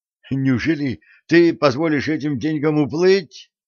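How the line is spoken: Exclaim. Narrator (Russian): воскликнул Дженкинс

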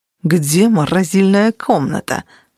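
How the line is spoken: Hissing. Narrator (Russian): прошипел он

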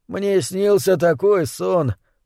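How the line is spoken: Mutter. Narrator (Russian): пробормотал он

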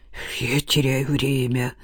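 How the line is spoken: Muttering. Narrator (Russian): пробормотал

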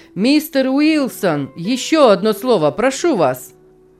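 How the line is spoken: Shouted. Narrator (Russian): крикнул

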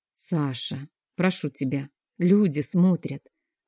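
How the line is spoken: Gentle request. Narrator (Russian): мягко попросила я

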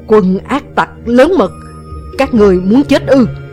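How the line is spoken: Loud shout. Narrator (Vietnamese): Địch Vân liền lớn tiếng quát

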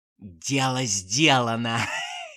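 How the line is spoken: Hoarse laughing aunt. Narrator (Russian): хрипло засмеялась тетушка Манефа

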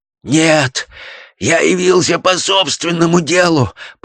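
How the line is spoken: Hoarse rasp. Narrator (Russian): прохрипел Шлезингер

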